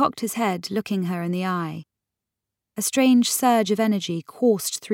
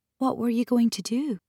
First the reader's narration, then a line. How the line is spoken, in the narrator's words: asked